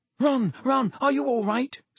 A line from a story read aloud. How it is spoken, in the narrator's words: squealed Hermione